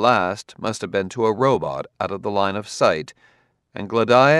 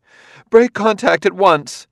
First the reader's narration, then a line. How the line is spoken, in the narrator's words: She shuddered in exaggerated disgust and called out